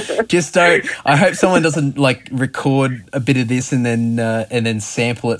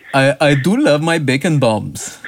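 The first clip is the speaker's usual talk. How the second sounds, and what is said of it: Impression of a thick accent. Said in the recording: “I just love his accent. It's just so thick ... the excitement mixed with the accent ... could you do the voice again?”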